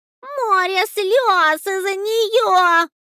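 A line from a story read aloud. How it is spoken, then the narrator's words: Mouse yelling. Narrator (Russian): орала мышь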